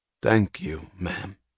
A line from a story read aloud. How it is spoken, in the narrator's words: he said quietly, with too earnest, too solemn an emphasis for a mere acknowledgment of the coins